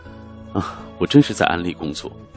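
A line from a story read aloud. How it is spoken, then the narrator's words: Laughter stopped, plain. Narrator (Chinese): 他止住笑，对我说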